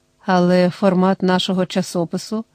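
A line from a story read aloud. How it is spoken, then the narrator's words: Mutter. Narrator (Ukrainian): пробурмотів Пом'янович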